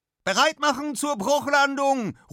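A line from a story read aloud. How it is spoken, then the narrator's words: Calling out. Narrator (German): ruft Anna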